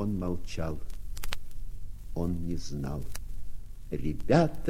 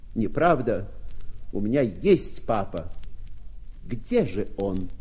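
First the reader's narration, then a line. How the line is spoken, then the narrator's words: Frightened desperate shout. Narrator (Russian): Побелев как полотно, он, наконец, отважился и крикнул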